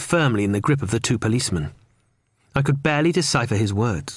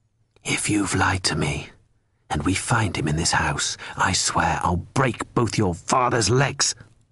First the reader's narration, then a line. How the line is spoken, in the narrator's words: whispered Fumero